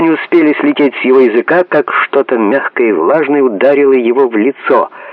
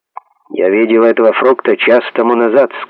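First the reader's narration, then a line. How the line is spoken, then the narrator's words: Stern. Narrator (Russian): сказал строго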